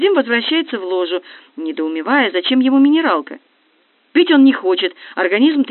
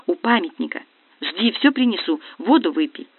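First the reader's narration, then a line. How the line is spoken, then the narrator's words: Whispering. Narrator (Russian): Сонечка шепнув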